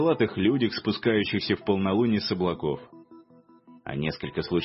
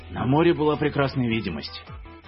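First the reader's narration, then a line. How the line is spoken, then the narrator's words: Snorting to himself. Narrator (Russian): фыркнул про себя Рихтер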